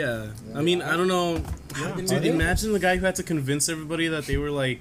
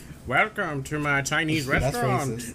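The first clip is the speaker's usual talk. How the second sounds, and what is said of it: Old-timey old New Yorker voice. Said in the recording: “That's not an accent. That's like an old-timey voice... it's like a old New Yorker”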